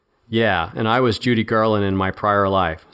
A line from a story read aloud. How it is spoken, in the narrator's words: said Duckworth